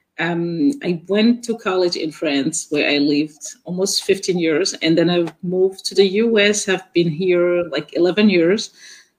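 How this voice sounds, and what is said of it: Mixed West African and French accent. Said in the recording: “I have an accent. ... So I was born and raised in West Africa, in French West Africa. So my accent is just this weird mixture. ... She says I sound like a German person speaking English. ... So it's a mix of African, French”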